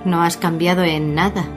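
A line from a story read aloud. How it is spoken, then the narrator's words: Mocking, disapproving tone. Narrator (Spanish): soltó Emmett con un tono burlón de desaprobación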